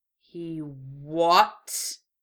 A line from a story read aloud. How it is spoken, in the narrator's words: Itachi's pleasant tenor dropped to a furious growl